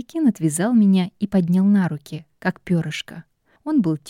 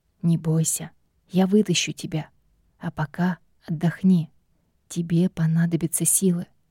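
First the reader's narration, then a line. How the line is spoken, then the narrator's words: Whispered. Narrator (Russian): прошептал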